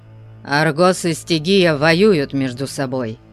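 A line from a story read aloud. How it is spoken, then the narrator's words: Sharp. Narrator (Russian): резко сказал он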